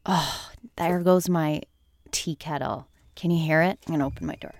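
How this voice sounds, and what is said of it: Raspy voice. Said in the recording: “my voice is raspy because I didn't wake up all that long ago”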